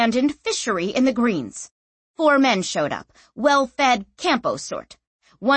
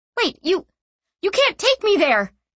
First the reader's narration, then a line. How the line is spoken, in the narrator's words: she cried